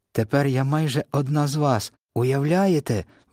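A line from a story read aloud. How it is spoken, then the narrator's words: Excited exclamation. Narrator (Ukrainian): вигукнула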